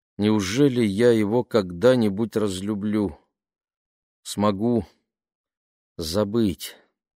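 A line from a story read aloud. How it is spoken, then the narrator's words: Mother sighing. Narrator (Russian): Мама вздохнула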